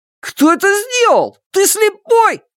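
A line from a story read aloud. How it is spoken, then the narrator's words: Yelling. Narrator (Russian): заорал Шунь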